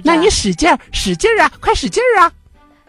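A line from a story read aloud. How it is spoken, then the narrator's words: Excited shouting. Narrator (Chinese): 小机灵兴奋地喊叫着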